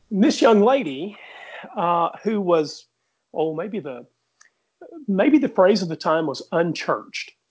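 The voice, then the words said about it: Mild Southern US accent. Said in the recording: “I carry a Southern accent, but there are Southern accents much deeper than mine.”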